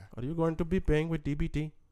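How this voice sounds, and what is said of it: Put-on foreign accent. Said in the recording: “with the accent too. That sounds crazy.”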